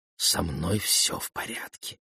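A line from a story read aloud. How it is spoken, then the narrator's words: Whisper. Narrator (Russian): прошептал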